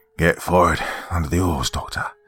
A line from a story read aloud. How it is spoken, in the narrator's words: said rather breathlessly